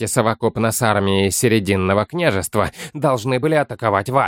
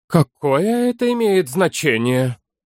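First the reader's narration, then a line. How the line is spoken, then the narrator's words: Gloomy reply. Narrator (Russian): мрачно ответил Форве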